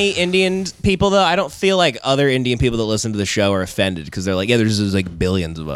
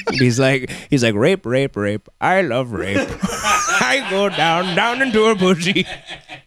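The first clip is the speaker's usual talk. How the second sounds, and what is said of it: Indian accent doing a character impression. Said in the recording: “an Indian guy doing a Ron Burgundy impression.”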